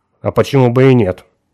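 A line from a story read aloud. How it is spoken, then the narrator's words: Cold objection. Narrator (Russian): холодно возразила она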